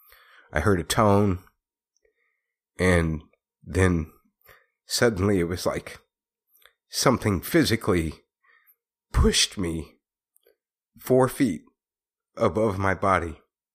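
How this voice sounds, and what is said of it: Emotional, shaky voice. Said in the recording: “get emotional”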